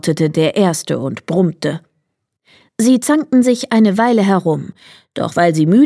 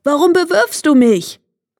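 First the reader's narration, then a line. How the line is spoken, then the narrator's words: Called out. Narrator (German): rief der andere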